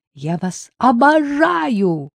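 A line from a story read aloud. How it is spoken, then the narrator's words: Excited shout. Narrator (Russian): закричала взволнованная Дина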